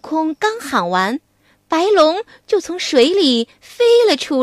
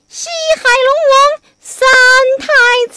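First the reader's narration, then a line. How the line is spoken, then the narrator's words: Calling out. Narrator (Chinese): 观音菩萨让悟空叫了一声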